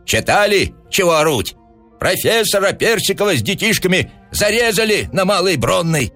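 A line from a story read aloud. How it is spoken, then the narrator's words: Crowd shouting. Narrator (Russian): кричали кругом в толпе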